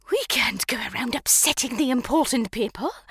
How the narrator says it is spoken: Madam hissed at him

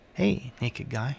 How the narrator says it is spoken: she said

